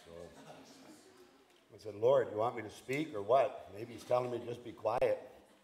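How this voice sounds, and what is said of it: Strained, hoarse voice. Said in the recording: “losing my voice. ... I'm sucking on a Ricola trying to get my voice back.”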